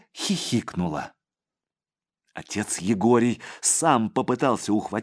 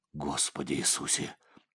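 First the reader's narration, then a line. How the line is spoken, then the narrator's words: Whispered. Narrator (Russian): прошептал отец Егорий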